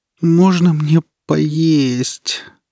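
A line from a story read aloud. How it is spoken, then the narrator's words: Moaning young woman. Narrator (Russian): простонала девушка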